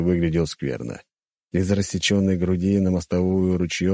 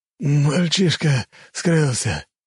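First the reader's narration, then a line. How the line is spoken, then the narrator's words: Hoarse, breathing heavily. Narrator (Russian): Окровавленный самурай громко дыша, прохрипел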